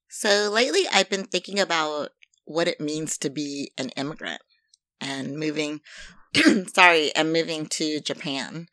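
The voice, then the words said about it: Slightly weird, sinus-affected voice. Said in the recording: “my voice sounds a little bit weird, because it sounds weird to me, it's because my sinuses are being affected and the airflow in my mouth is being affected”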